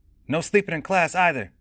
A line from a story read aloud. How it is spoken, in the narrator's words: Trey shouted up to his teammates, half serious, half wanting to call out Ronald for sleeping half the days